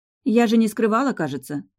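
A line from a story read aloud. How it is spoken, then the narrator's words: Sigh. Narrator (Russian): вздохнула некроведьмочка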